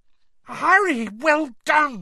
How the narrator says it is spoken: Hermione cried

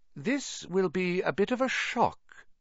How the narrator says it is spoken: said Professor McGonagall in a surprisingly gentle voice

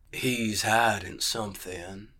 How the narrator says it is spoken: the gray man purred

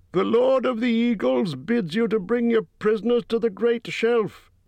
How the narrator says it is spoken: he cried

